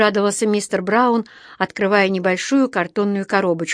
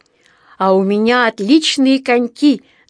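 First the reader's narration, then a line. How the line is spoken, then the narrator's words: Delighted shout. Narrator (Russian): закричал Джонатан, тоже довольный до нельзя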